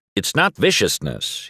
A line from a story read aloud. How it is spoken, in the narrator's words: corrects me, his voice suddenly stern